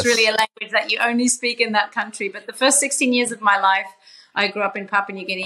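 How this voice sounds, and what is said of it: Australian accent. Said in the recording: “my Aussie twang”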